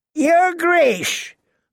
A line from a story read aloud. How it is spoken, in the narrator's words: Lord Walder called out to Rob